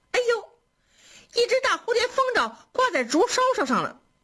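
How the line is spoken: Maids shouting. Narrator (Chinese): 窗外丫鬟们嚷了

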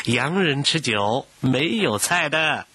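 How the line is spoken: Teasing. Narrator (Chinese): 古迎春笑他

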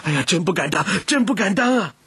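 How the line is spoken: Hurried shout. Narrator (Chinese): 姬家的跟班连忙喊道

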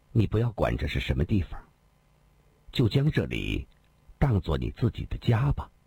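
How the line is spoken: Soft, gentle. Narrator (Chinese): 林仙儿柔声地说道

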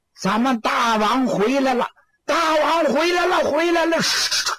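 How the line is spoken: Shouting. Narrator (Chinese): 有人发声喊

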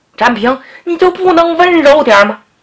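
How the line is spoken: Crying out in pain. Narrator (Chinese): 疼得小菊直叫唤

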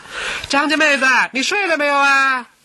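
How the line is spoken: Loud yell. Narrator (Chinese): 七姑奶奶扯开喉咙大喊

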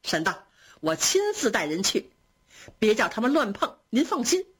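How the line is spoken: Beaming with delight. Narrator (Chinese): 贾蓉喜得眉开眼笑

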